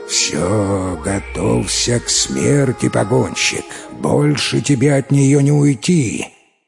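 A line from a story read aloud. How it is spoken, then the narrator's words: Growling. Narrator (Russian): он прорычал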